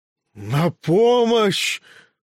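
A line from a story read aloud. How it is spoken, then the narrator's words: Breathless yelling. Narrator (Russian): задыхаясь, орал страшный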